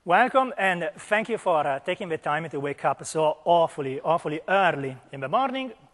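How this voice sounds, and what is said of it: Speaks with a noticeable accent. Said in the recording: “as you can hear from the accent”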